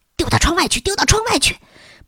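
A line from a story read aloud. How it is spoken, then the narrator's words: Whisper. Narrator (Chinese): 布鲁诺小声说道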